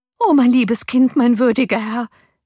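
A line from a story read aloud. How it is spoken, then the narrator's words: Nurse calls out. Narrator (German): rief die Amme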